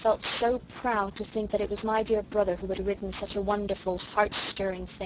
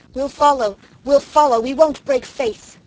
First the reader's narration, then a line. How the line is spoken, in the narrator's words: The soldiers cheered her like mad and cried